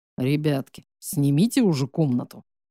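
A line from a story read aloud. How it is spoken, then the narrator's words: Deep bass voice. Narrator (Russian): пробасил его приятель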